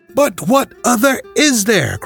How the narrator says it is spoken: cried the banker, with a gesture of despair

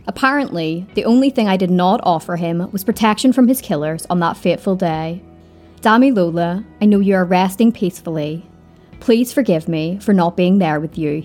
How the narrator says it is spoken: said

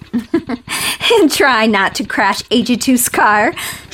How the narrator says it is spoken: she added laughingly

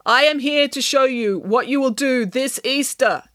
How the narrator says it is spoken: intoned Michael

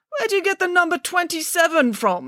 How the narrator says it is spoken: spluttered Mr

